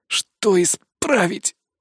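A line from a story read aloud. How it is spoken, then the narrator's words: Hoarse croak. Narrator (Russian): прохрипел я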